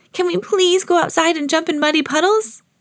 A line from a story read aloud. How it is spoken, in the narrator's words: asked Peppa excitedly